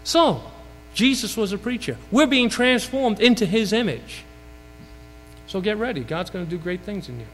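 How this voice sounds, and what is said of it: Brooklyn New York accent. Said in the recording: “I know it sounds like I have a Texas accent, but it's really from Brooklyn, New York.”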